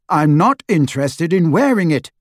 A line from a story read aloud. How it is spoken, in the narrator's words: Harry said fiercely